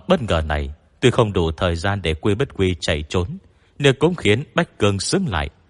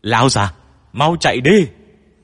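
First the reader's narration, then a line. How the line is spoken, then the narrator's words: Screaming. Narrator (Vietnamese): miệng gào thét với Quy Bất Quy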